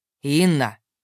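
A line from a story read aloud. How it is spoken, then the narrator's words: Distant growl. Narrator (Russian): С той стороны донеслось рычание Хоргина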